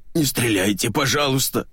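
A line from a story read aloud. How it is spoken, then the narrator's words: Wheezing. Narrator (Russian): снова захрипел Петрович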